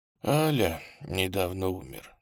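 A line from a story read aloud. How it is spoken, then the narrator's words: Quiet old man. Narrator (Russian): тихо сказал старик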